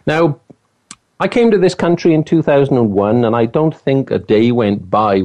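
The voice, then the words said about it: Welsh accent. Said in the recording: “I do like your accent ... Wales, where I'm from”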